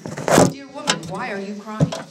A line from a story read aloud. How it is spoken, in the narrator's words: Jesus asked her